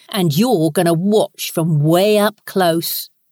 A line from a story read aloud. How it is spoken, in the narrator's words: Ross growled out coarsely